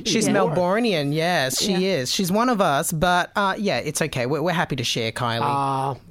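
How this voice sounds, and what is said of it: Upbeat Australian accent. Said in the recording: “I love your accent, by the way. Everything sounds so positive.”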